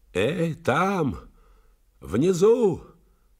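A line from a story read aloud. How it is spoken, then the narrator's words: Shout fading away. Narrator (Russian): выкрикнул, и голос мой уплыл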